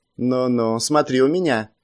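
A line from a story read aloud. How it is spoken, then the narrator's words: Relaxed grumble. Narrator (Russian): буркнул, расслабившись, Вужоу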